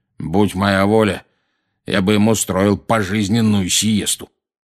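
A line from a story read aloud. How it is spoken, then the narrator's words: Grumbled. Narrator (Russian): проворчал дядя Вернон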